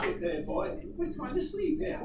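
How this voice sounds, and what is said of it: Poor put-on British accent. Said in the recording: “You're making fun of my British accent... That was worse than mine.”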